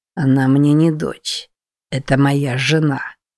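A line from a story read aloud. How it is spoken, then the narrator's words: Through clenched teeth. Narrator (Russian): процедил, стиснув зубы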